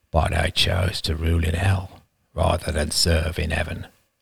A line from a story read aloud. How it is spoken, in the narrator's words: murmured Roman